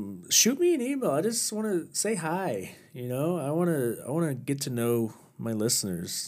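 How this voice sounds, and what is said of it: Usual voice. Nothing is said of it.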